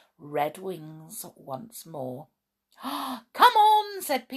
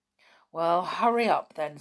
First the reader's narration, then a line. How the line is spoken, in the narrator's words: said Binky nervously